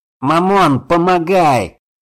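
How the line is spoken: Shouting. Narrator (Russian): прокричал он

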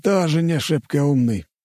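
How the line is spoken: Sighing. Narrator (Russian): вздохнул Мамонов

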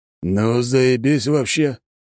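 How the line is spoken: Forced out, strained. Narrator (Russian): выдавил из себя друг

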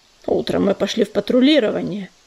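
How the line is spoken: Grumbled. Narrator (Russian): пробурчал ураган

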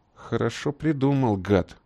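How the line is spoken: Grumbled. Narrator (Russian): буркнул Боб

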